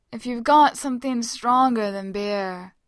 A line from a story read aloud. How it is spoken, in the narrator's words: Kame calls out from the living room floor, his vowels already sliding and slurring into each other